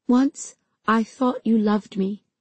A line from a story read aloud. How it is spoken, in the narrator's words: I said in a broken voice